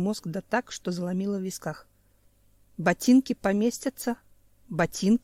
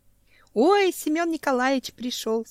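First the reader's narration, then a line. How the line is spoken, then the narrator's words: Joyful squeak. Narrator (Russian): Скорее радостно, чем испуганно, пискнула Танечка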